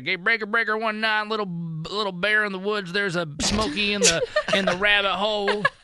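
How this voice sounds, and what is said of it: Bad CB-radio trucker impression. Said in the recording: “That was the worst truck driver impression.”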